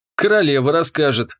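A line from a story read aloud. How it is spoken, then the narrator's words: Snort. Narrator (Russian): хмыкнул я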